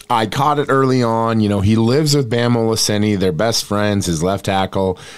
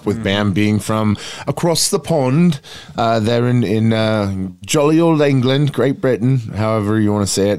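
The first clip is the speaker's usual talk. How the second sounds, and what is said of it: Mock English accent. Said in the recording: “my impersonation sounds about like Roy Kent trying to talk like Ted Lasso”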